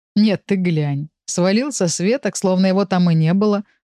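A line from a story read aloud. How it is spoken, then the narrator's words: Snorting. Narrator (Russian): хмыкнул Урс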